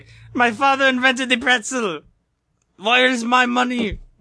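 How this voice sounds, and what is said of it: Failed German accent, sounded Saudi. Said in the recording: “Accent was that? ... Was he a Saudi? ... I was trying to do German, and then I just started laughing, so it didn't work out too well.”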